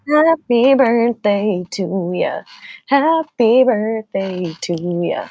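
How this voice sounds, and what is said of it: Sings with a country twang. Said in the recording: “I liked there that country ... country twang song”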